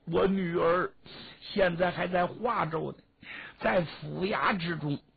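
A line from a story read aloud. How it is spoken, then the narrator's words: Crying while speaking. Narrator (Chinese): 王毅一边哭一边说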